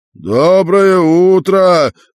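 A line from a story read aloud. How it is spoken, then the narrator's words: Shouted. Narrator (Russian): крикнул большой шар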